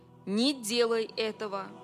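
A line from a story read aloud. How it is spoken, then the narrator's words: Commanding angelic voice. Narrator (Russian): повелительным тоном сказал ангел Господень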